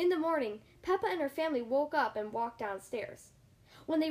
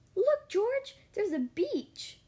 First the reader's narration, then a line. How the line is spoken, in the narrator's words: gasped Peppa